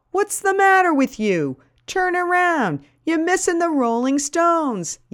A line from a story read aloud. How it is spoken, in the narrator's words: A guy yells